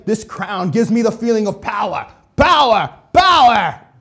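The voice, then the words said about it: Mocking cartoon character voice, poor accent. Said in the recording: “My accent is terrible. ... I'm trying to mock what he's saying”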